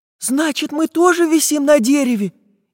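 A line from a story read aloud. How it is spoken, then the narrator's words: Frightened question. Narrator (Russian): испуганно спросила Настенька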